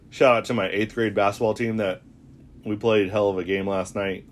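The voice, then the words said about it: Raspy voice. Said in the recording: “my voice is a little bit raspy”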